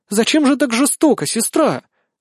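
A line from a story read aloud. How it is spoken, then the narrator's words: Cheerful. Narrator (Russian): выдает она весело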